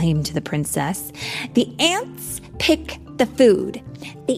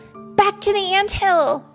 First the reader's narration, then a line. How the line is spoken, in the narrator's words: shouted Ada